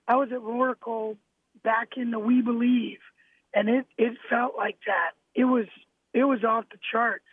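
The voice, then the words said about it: Hoarse, strained voice. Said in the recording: “I lost my voice there last tonight”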